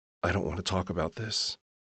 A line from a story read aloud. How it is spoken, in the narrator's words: whisper